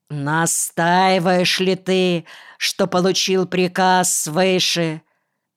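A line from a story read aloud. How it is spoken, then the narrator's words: Loud question. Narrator (Russian): он громко спросил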